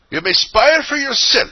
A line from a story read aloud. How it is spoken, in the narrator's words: said the woman angrily